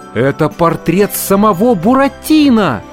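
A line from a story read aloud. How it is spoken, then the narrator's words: Exclaimed in unison. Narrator (Russian): Мальвина, Пьеро, папа Карло, даже голодный Артемон воскликнули в один голос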